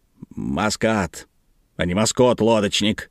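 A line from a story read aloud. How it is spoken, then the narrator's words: Grumbling. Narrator (Russian): проворчал его друг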